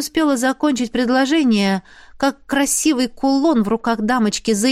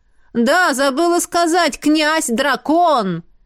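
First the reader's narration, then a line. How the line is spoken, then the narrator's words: Shouted after someone. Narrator (Russian): Крикнула дамочка вдогонку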